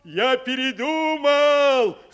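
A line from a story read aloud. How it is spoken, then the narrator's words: Loud. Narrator (Russian): сказал он так громко, чтобы его услышали в домике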